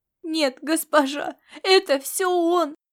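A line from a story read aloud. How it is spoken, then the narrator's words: Sobbing. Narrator (Russian): рыдала Лилиан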